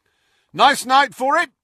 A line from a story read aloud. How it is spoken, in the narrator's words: Fred shouted, as the castle quaked again